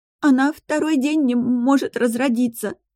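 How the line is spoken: Sobbing girl. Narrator (Russian): всхлипывая, прорыдала девочка

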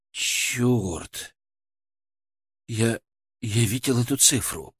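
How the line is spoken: Whisper. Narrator (Russian): прошептал он

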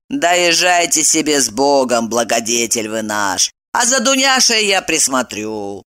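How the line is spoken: Calm. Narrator (Russian): Спокойно сказала она

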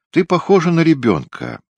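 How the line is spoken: Calm. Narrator (Russian): сказал он спокойно

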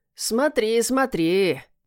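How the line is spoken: Sly drawl, cat. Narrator (Russian): ехидно протянул кот

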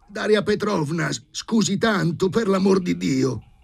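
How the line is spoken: Flustered embarrassed shout. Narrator (Italian): le gridò dietro, riprendendosi Filip Filippovich rosso in faccia

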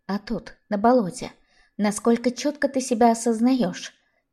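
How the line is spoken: Soft question. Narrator (Russian): спросила мягко

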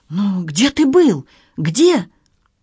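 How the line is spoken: Impatient exclamation. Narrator (Russian): Юный Генри нетерпеливо воскликнул

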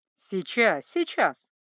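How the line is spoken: Laughing. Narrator (Russian): засмеялась та

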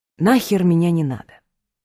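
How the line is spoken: Gentle request. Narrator (Russian): мягко попросил Семен

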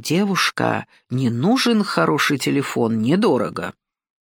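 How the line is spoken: Confiding, tempting rustle. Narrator (Russian): смуглый человек в мятой кепке доверительным голосом змеи-искусителя прошелестел

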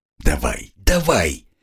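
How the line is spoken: Muttering under breath. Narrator (Russian): бормотал себе под нос

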